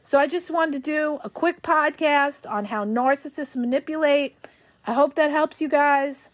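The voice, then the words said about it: Hoarse, failing voice. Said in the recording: “I'm losing my voice.”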